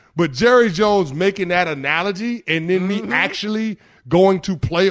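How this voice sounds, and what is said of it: Usual voice. Nothing is said of it.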